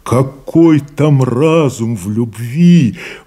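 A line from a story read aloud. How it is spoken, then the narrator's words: Exclaiming. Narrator (Russian): воскликнул Найда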